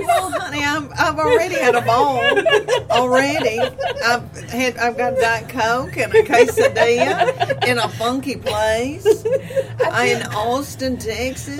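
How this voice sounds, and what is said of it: Tennessee twang, Southern accent. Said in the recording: “that Tennessee twang is just the best”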